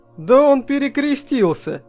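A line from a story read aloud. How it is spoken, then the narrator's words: Exclaiming. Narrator (Russian): воскликнул я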